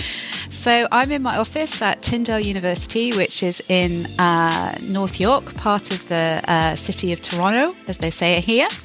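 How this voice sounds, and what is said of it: British accent. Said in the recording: “you have that same British accent that I have”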